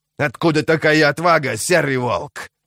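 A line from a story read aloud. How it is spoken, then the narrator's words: Growled, male. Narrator (Russian): прорычал он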